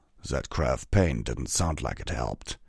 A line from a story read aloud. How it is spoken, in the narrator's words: Vanguard growled